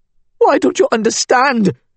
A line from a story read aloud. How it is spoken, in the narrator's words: Lubana pleaded